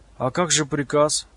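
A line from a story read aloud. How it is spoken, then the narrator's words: Frightened question. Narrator (Russian): испуганно спросил тот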